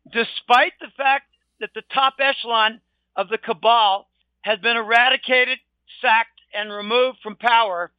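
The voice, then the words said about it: Voice giving out, strained. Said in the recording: “I'm losing my voice,”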